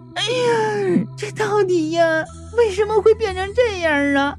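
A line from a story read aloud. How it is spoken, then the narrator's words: Tearful question. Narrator (Chinese): 年轻女人用哭腔就问道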